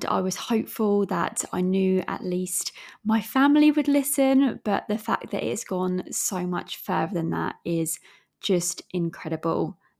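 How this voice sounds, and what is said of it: English accent with slight Australian twang. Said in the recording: “my accent is from England, as well as I do have a bit of an Aussie twang”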